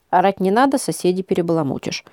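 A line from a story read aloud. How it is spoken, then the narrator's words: Calm, cutting interruption. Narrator (Russian): спокойно оборвала она его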